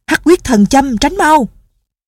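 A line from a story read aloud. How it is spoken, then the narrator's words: Shouting. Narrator (Vietnamese): Đinh Miễn la lên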